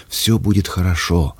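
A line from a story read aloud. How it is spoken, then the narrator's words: Soft repetition. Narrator (Russian): мягко повторила она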